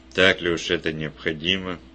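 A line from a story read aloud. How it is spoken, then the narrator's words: Grumble. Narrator (Russian): Он буркнул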